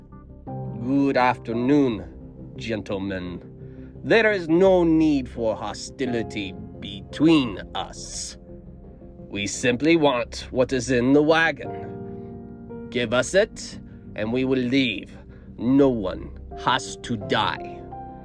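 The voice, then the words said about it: Very strong Russian accent. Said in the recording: “He spoke out loud in a very strong Russian accent.”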